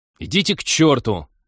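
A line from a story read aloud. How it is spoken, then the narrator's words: Loud snapping retort. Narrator (Russian): громко огрызнулся Тед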